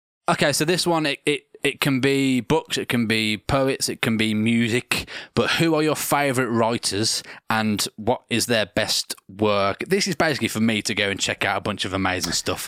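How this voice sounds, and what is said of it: Birmingham accent. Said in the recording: “That's the Birmingham accent”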